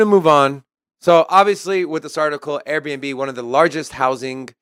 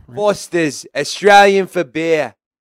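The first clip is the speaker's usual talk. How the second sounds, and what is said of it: Put-on Australian accent. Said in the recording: “If you're from Australia and that was a good accent”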